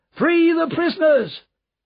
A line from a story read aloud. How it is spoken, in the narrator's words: shouting